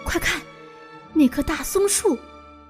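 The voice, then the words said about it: Quiet, hushed voice. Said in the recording (Chinese): “爸爸突然小声说”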